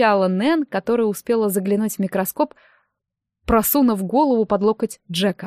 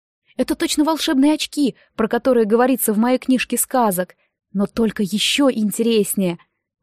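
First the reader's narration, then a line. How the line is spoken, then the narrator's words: Delighted exclamation. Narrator (Russian): воскликнул восхищенный Дэми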